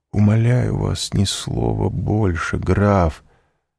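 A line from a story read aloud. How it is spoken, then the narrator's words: Dejected, sinking voice. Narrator (Russian): сказал Морель упавшим голосом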